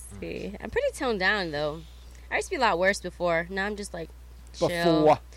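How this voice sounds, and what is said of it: Strong Latin New York accent. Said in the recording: “tone down your accent. Tone down your New York accent. ... Strong. ... it's a Latin New York accent?”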